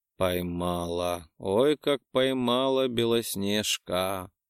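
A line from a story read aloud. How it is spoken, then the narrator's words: Murmur. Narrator (Russian): пробормотал Марк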